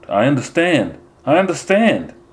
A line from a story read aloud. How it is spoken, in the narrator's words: shout